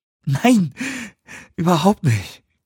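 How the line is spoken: Panting. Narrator (German): keuchte er

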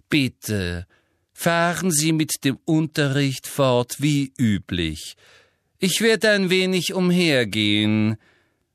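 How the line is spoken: Very loud and slow. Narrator (German): sagte wiederum sehr laut und langsam

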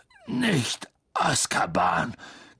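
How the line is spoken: Croaked. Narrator (German): krächzte Hagrid

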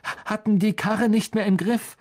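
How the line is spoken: Pained panting. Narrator (German): keuchte, die Hände an die Rippen gepresst

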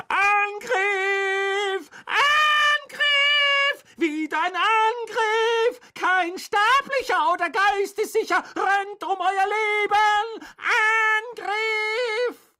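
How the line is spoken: Full-lunged bellow. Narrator (German): füllte er seine Lungen und brüllte

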